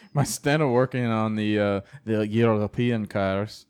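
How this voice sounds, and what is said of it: Put-on French accent. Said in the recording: “That was my French accent for European cars.”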